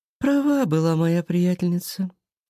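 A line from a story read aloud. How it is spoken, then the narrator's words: Sigh. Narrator (Russian): вздохнула Валерия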